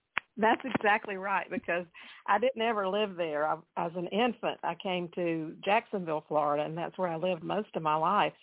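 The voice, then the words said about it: Southern US Georgia accent. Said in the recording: “you can tell by our accents we are both Georgia girls ... I was born with a Georgia accent, and it never has left me”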